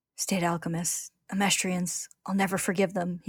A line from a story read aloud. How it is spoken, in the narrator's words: he begins to mutter